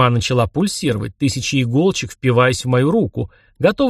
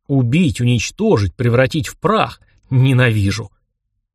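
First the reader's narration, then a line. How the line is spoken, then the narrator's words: Hissing. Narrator (Russian): Хозяин штормов что-то прошипел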